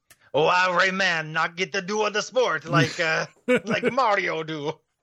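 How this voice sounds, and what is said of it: Put-on French-ish, Cajun-like accent. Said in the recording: “why'd you do that accent? ... Because Rayman is from France. ... Kind of do more of a Cajun kind of thing there.”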